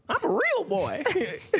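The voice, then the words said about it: Pinocchio character voice. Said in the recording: “great impression of Pinocchio”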